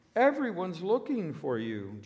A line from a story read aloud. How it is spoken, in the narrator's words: when they found him, they exclaimed